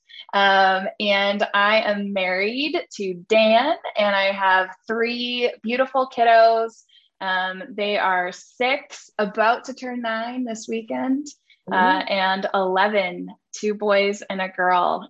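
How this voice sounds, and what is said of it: Canadian accent. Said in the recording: “If you didn't already hear the Canada in my accent.”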